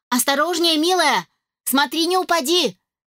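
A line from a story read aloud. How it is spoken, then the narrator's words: Shouted. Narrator (Russian): крикнула я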